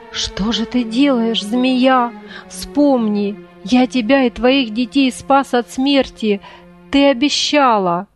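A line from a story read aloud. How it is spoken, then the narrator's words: Slurred, trembling, holding back sobs. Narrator (Russian): Еле ворочая во рту языком, дрожа всем телом, охотник, еле сдерживая рыдание, промолвил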